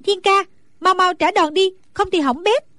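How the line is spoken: Anxious shout. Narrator (Vietnamese): Nàng càng theo dõi càng thấy hồi hộp lo lắng, bèn la lên

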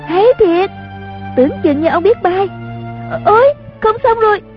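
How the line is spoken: Cheering. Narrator (Vietnamese): Chung Linh reo lên

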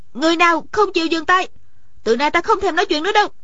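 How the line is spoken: Suddenly raised voice. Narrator (Vietnamese): Điền Thanh Văn bỗng cao giọng nói

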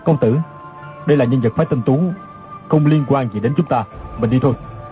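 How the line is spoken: Lowered voice. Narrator (Vietnamese): Chu Đăng Thần hạ giọng nói

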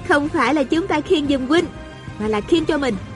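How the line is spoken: Smiling. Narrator (Vietnamese): A Cửu mỉm cười nói

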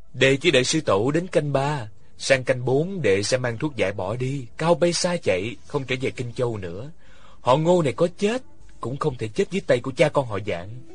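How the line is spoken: Quiet, soft. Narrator (Vietnamese): Ngô Khảm khẽ nói

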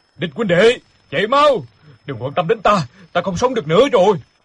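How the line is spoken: Desperate loud shout. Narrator (Vietnamese): bèn hét lớn

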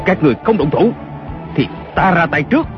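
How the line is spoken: Shouting again. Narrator (Vietnamese): Kiều Phong lại quát lên

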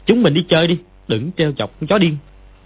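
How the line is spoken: Angry. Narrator (Vietnamese): Võ Đôn Nhu tức giận nói

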